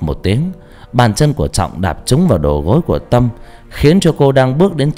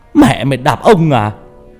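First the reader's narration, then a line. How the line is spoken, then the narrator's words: Furious yell. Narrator (Vietnamese): hét lên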